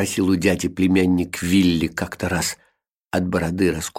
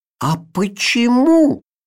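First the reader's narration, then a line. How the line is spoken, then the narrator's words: Exclaiming. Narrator (Russian): воскликнул Вилли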